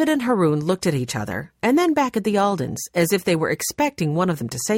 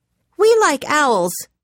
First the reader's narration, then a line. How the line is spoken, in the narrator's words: blurted out